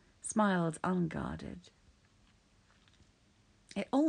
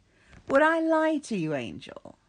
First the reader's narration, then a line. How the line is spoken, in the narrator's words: Crowley asked, chuckling